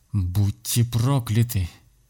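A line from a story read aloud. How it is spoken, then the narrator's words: Hissed through teeth. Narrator (Russian): процедила сквозь зубы ведьма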